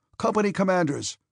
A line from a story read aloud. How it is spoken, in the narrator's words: he shouted in a voice accustomed to command